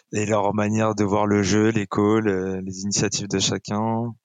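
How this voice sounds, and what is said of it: French with North African accent. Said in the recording (French): “mon petit accent du bled”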